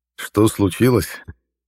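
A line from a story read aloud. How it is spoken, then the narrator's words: Laughing. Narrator (Russian): Рассмеялся я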